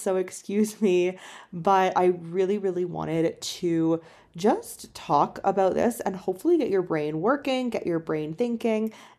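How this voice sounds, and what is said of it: Hoarse voice. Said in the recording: “My voice is a little bit hoarse,”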